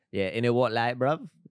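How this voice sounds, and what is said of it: South London British accent. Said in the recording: “I could do a good British accent. ... I am doing sort of like a South London Brixton, which is like, it's very Afro-Caribbean influence.”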